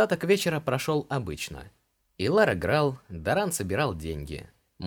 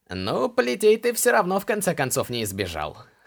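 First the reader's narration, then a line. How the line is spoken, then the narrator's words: Amused snort. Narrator (Russian): хмыкнул дудочник, весело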